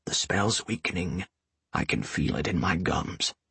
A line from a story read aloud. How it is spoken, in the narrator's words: he whispered